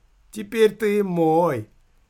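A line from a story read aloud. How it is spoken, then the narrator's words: Bursting into laughter. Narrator (Russian): Филька расхохотался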